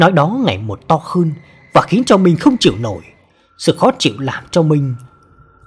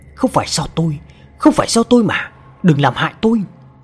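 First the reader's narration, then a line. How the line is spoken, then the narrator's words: Trembling, frantic muttering. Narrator (Vietnamese): Thằng Minh run rẩy không ngừng liên tục lẩm bẩm trong miệng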